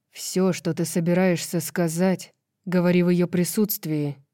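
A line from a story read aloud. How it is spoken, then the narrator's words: Growling. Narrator (Russian): прорычал Холстром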